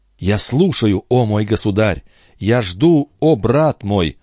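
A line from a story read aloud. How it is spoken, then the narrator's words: Joyful devoted exclamation. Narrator (Russian): воскликнула Хинеста, с неизъяснимой улыбкой радости и преданности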